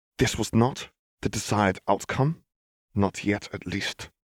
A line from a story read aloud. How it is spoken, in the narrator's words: he muttered